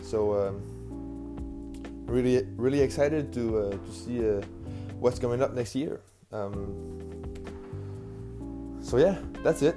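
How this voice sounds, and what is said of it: Non-native English accent. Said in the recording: “Sorry for all my mistakes and my accent.”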